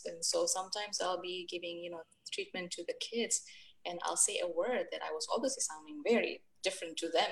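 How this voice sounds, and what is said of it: Noticeably different non-local accent. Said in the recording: “I speak differently. My accent is obviously a little different. It was and probably still is.”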